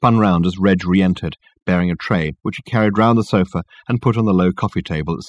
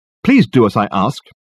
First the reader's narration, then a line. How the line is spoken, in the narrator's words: he snapped angrily